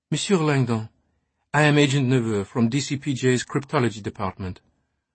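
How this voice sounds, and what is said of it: Muted Anglo-French accent. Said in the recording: “Her words curved richly around her muted Anglo-Franco accent.”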